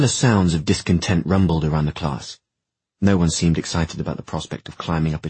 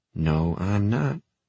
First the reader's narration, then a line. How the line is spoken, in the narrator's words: Simon muttered